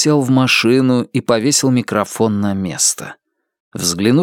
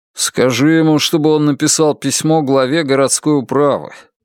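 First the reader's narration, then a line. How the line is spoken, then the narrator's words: Grumbling. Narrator (Russian): проворчал Алан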